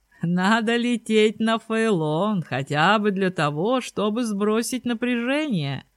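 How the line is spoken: Laughing. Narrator (Russian): рассмеялся Йонас

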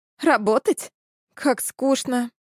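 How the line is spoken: Groaning. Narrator (Russian): застонала Алексис

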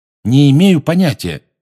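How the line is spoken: Loud. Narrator (Russian): громко сказал Гарри

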